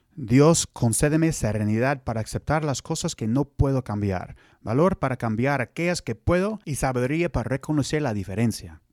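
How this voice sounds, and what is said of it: Spanish with American gringo accent. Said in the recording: “That would be my gringo, Spanish, Mexican accent in Spanish.”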